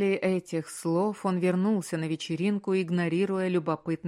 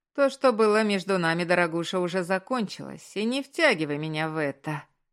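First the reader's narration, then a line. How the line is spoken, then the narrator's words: Through gritted teeth. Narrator (Russian): процедил Роджерс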